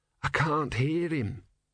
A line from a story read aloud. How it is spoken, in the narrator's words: said Brother hoarsely